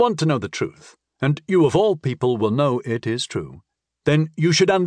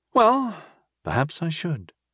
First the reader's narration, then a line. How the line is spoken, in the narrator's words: I sighed